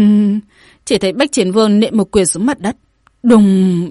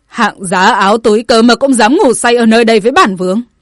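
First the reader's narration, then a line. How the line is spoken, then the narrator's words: Arrogant shout. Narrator (Vietnamese): Bách Chiến Vương cao ngạo quát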